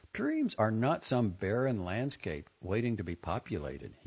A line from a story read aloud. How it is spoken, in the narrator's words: he said